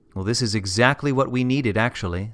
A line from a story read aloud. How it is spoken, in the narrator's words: said Daddy